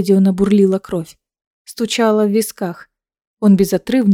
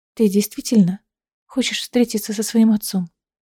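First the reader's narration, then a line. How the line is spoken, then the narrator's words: Calm question. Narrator (Russian): спокойно спросила Лиссандра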